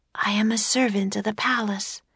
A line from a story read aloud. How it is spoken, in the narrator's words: the girl whispered